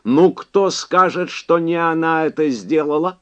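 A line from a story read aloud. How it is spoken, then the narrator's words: Shouting. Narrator (Russian): закричал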